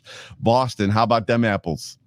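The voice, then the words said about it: Put-on Boston accent. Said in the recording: “my best Boston accent”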